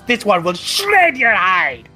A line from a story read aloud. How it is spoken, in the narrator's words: She hisses